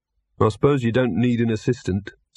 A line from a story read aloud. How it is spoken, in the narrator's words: said Victor wistfully